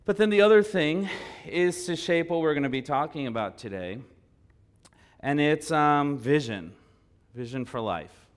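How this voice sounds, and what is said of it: Strained, fading voice from illness. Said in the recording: “I've been sick. I've been losing my voice a little bit this week”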